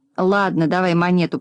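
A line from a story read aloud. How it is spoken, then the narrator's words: Grumbled. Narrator (Russian): проворчал Дригль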